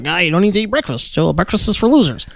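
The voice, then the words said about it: Dr. Oz impression. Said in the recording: “Dr. Oz did that weird thing. He's like”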